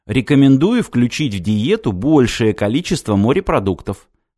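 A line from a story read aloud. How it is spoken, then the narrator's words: Plain. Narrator (Russian): сказал гаджет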